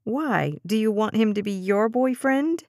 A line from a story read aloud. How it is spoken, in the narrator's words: Dez giggled